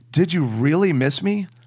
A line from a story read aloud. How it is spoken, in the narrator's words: his large gray eyes lit up eagerly as he replied